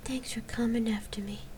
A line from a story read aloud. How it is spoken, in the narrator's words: Gabrielle whispered